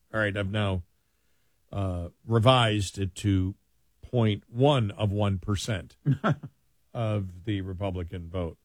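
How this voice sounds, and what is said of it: Sarcastic delivery. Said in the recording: “I'm being sarcastic there.”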